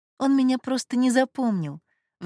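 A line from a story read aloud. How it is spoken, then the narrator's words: Sighing. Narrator (Russian): вздохнула Анастасия Александровна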